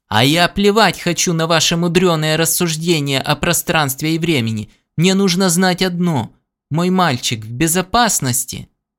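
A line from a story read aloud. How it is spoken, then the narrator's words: Near-hysterical shout. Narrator (Russian): Джонсон почти истерично выкрикнул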